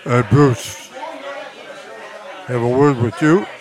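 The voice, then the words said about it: Chicago accent. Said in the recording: “with that Chicago accent”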